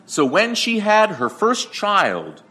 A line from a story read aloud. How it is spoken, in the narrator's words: she exclaimed